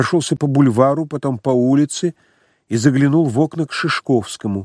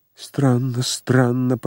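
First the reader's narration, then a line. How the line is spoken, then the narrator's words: Muttered. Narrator (Russian): пробормотал Ачмианов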